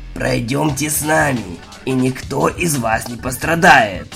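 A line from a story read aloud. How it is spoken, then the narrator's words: Sepulchral, hoarse voice. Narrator (Russian): сказал один из офицеров, тот, что с замогильным хриплым голосом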